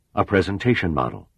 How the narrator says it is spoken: Vogel blurted out loud

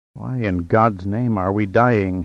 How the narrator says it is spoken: he whispered, seeing his own grisly death mirrored by Midgard

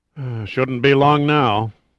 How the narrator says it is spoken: the President sighed wearily

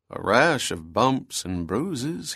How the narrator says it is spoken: muttered

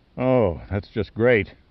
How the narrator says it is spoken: Pitt groaned

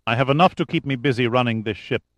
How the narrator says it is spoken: Pekovsky said quickly

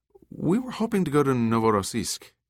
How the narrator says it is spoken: said sweetly

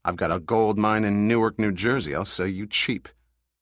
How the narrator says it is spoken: said Pitt coldly

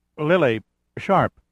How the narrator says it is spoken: stammered

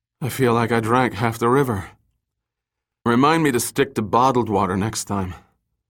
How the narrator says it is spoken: unsteadily, he turned to Summer and gasped

